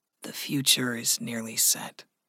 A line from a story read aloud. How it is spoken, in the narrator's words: Gregory said softly